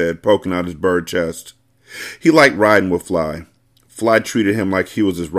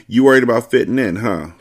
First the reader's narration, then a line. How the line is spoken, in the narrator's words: Fly said